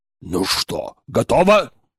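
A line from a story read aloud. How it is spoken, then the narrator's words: Nervous bark. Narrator (Russian): нервно гаркнул Владислав Аркадьевич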